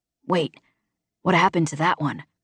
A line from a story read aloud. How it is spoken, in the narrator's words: Rig whispered